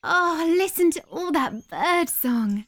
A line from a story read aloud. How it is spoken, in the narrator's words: said Caitlin sleepily